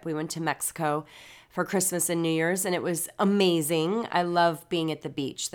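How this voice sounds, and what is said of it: Congested voice, sounds like a cold. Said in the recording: “I know I sound a little bit like I have a cold because I do.”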